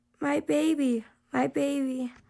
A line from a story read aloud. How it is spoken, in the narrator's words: she began to whimper